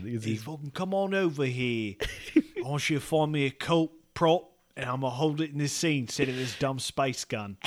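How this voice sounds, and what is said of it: Put-on British accent. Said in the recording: “Oh, you gotta do a British accent.”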